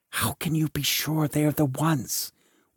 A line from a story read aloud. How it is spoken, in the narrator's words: whispered the knight to the buffoon at his side